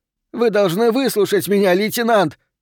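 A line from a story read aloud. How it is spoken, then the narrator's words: Shrieking. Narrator (Russian): визжал он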